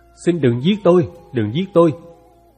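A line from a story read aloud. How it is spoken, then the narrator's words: Terrified trembling plea. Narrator (Vietnamese): lộ vẻ vô cùng sợ hãi, toàn thân run rẩy, cất tiếng van xin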